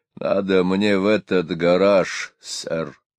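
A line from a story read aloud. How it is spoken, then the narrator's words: Worried, hoarse voice. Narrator (Russian): сказал он озабоченным, хриплым голосом, которого они еще не слышали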